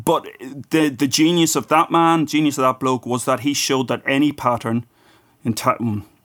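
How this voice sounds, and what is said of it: Irish accent. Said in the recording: “that's an awful mangling in my Irish accent”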